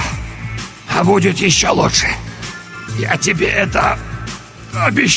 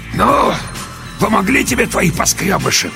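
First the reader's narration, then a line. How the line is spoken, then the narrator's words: Hoarse wheezing. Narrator (Russian): продолжал меж тем хрипеть человек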